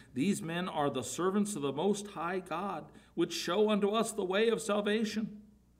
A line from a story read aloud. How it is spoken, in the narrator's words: cried, saying